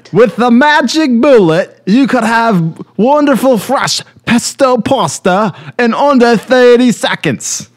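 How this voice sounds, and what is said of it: Bad put-on Australian-ish accent. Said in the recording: “a bad version of my accents ... I think it's kind of Australian.”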